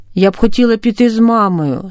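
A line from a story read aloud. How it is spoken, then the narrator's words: Plain. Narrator (Ukrainian): сказала Оля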